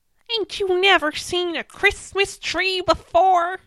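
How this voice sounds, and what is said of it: Exaggerated put-on Texas accent. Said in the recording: “Did you like my accent? ... That's slightly worse than the last one. ... It's deteriorating. ... That's how all people from Texas sound like. ... That's exactly what they sound like.”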